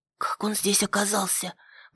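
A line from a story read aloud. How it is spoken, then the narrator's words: Whisper. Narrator (Russian): прошептала Нетта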